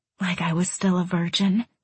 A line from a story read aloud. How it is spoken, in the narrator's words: I whispered